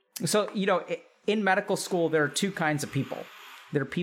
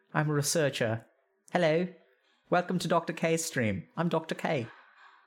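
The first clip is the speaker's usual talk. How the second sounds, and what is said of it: Attempted British accent, uncertain quality. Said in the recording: “Can I do a British accent? Is this British? I'm not quite sure. ... British, isn't it? Not quite sure, though.”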